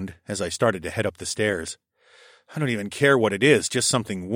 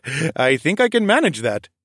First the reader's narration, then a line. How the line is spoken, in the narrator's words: Fareed laughed behind me